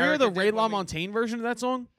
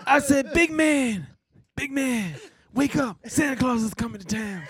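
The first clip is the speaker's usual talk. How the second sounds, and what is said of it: Raspy imitation of a singer's voice. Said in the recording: “your Bruce impression ... Just some rasp ... That's my Bruce Springsteen”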